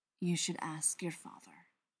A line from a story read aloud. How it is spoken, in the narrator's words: Castiel says, in that same gentle tone